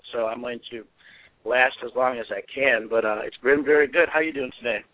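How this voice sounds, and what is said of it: Slightly sore, strained throat voice. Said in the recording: “I have a bit of a sore throat”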